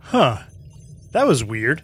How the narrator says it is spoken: said Finn

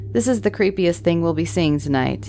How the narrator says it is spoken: I laughed and said

